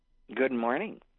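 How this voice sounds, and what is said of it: Slow, deliberate, authoritative imitated voice. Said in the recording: “your voice sounds authoritative and not scratchy ... my best imitation of our father ... slow ... Deliberate, commanding attention.”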